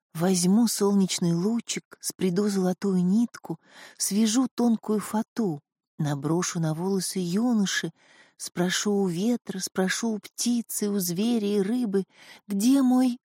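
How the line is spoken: Whispering. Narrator (Russian): зашептала

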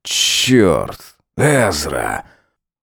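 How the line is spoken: Exhaled through teeth. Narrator (Russian): Он выдохнул сквозь зубы

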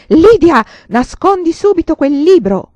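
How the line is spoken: Yelling. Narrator (Italian): urlava

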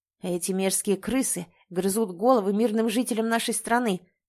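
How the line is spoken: Growl. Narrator (Russian): прорычал

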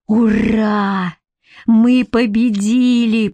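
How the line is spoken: Moaned. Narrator (Russian): простонал Федька

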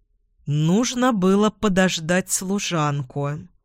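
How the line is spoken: Through gritted teeth. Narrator (Russian): процедил ректор

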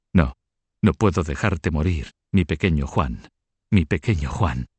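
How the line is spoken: Murmuring. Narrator (Spanish): murmurando

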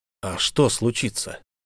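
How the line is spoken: Slightly trembling voice. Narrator (Russian): Она чуть дрогнувшим голосом ответила

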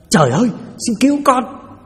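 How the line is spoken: Terrified cry. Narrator (Vietnamese): Quá hãi hùng, Lâm la lên một tiếng

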